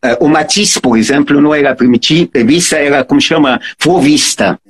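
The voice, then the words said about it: Noticeable foreign accent in Portuguese. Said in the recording (Portuguese): “O português, obviamente, eu não posso abrir a boca, não posso falar bom dia. Que eu... É, da onde que você veio?”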